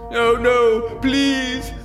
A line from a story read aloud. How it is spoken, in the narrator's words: Wallowing in a sea of self-pity, he moans